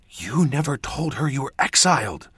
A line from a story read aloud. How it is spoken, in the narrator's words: she hissed